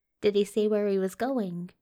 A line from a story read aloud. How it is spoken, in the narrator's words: Aziraphale asked